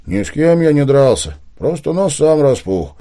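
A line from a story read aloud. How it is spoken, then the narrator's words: Gloomy. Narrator (Russian): мрачно ответил Виктор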